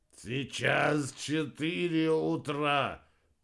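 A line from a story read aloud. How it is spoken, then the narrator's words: Groaning. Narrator (Russian): простонал Вернон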